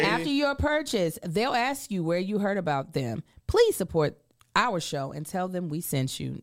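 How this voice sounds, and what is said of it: Usual voice. Nothing is said of it.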